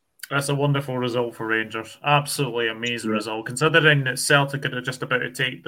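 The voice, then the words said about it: Welsh accent. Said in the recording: “people that are listening will know from your accent that you're Welsh”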